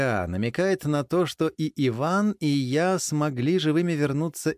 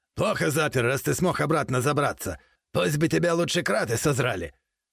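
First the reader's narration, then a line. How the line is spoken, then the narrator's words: Continued yelling. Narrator (Russian): Продолжал орать он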